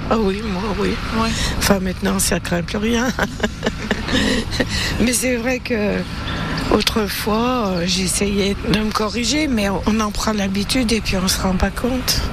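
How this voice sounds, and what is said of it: Stéphanois French regional accent. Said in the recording (French): “L'accent stéphanois ... il gêne souvent ceux qui l'ont, comme ... à qui on fait souvent remarquer sa façon de parler ... C'est vrai que notre accent, il n'est pas joli.”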